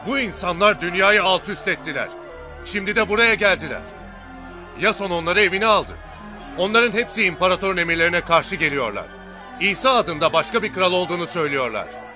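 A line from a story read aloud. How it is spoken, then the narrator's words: Shouted by group. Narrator (Turkish): diye bağırdılar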